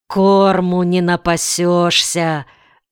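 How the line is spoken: Sigh. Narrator (Russian): вздохнул Итерультен

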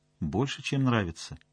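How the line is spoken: Quiet. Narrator (Russian): тихо сказал Соловьев

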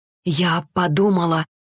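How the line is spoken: Barely breathed out. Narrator (Russian): еле выдохнула Арина

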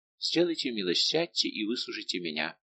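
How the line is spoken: Gentle interruption. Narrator (Russian): перебила его Луиза своим ласковым голосом

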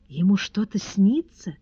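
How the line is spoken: Touched whisper. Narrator (Russian): растроганно прошептала госпожа Перманедер

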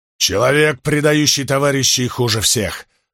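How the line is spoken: Angry growl. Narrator (Russian): прорычал Спартак, вспомнив о медике

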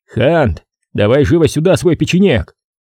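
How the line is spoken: Shouting while panting. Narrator (Russian): крикнул, пыхтя

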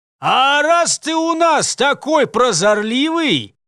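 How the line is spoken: Cheeky distant shout. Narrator (Russian): прокричал ему меж тем нахальный голос черного колдуна, спина которого уже успела скрыться в толпе

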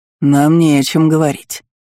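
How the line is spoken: Cold, tight-lipped. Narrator (Russian): холодно поджал губы Аэулир Тинель

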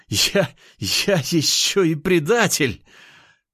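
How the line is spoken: Hysterical laughter. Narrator (Russian): Тайш начал истерично смеяться

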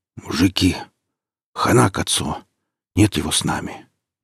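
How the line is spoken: Hoarse rasp. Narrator (Russian): прохрипел он

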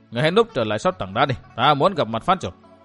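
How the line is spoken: Cold. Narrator (Vietnamese): Chàng lạnh lùng thốt

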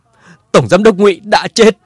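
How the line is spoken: Furious tearful shout. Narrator (Vietnamese): Ngụy Thành Châu mắt đỏ giận dữ hét

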